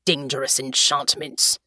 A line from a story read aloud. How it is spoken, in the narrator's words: Tyrrell said gruffly